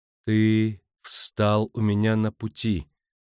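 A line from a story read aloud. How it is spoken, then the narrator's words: Yapping, distinct, slow. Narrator (Russian): произнесла тявкающим, но отчетливым голосом, медленно выговаривая каждое слово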